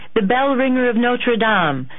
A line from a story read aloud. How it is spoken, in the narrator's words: the crowd roared